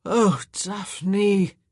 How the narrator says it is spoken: he sighed

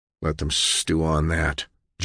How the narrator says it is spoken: John said coldly

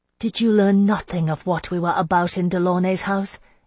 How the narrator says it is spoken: I asked bitterly

